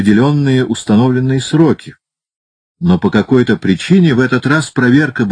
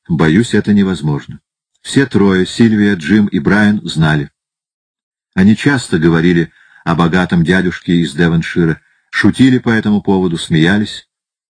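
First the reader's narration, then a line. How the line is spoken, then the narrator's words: Calm. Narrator (Russian): Затем она спокойно сказала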